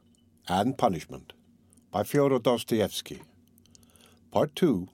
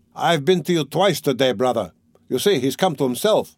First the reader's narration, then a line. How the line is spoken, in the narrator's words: cried Razumihin